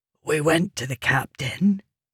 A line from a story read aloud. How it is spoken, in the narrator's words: one of them explained in a hushed voice